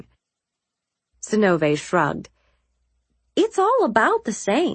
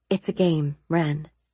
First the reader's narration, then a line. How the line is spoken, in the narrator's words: I said quietly